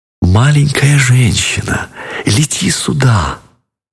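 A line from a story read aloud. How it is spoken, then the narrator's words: Tender whisper. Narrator (Russian): нежно-нежно шепнула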